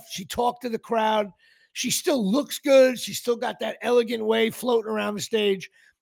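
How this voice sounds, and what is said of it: Hoarse, worn-out voice. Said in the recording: “my voice is gone now doing this podcast”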